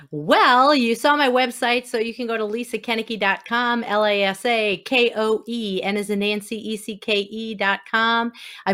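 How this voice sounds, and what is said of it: Wisconsin accent. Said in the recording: “from Wisconsin. Did you hear that accent?”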